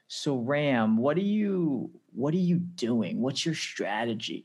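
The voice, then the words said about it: Poor put-on American accent. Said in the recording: “I know that was a poor US accent”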